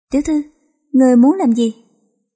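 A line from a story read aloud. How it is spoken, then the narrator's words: Trembling. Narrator (Vietnamese): Oanh Nhi run rẩy nói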